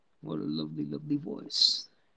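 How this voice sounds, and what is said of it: Poor imitation of villain's voice. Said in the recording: “my horrible Bane impression”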